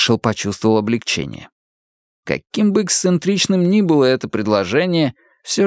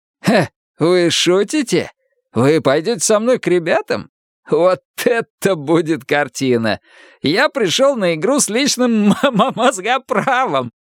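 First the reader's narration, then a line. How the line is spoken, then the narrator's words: Laughing loudly. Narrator (Russian): Шелли хохотал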